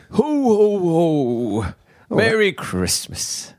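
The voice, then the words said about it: Jolly Father Christmas voice impression. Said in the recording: “That's a good impression.”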